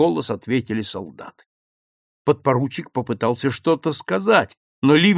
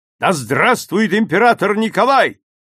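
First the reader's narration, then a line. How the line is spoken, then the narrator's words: Shout. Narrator (Russian): он крикнул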